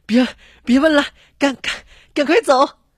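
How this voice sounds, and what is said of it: Breathless, stammering hurried speech. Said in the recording (Chinese): “这儿子气喘吁吁的说”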